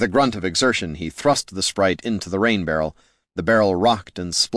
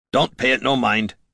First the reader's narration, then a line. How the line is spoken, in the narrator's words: Gorm grunted